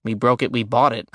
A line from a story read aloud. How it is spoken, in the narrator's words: I muttered